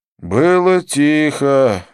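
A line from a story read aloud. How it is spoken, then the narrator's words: Breathless, smiling. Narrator (Russian): выдохнул Деннис, не прекращая улыбаться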